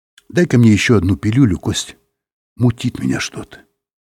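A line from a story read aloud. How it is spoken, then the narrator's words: Quiet. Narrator (Russian): сказал тихо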